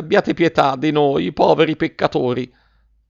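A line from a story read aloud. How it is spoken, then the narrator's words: Exclaimed. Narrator (Italian): esclamò la signora Geltrude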